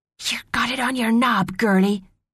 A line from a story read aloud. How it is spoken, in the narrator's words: hissed